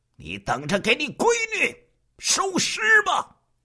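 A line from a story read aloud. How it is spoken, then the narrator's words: Ferocious roar over phone. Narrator (Chinese): 那边电话之中传来一句狰狞的吼声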